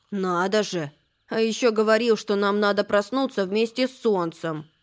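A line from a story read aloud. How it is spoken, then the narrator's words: Grumbled. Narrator (Russian): проворчал Макси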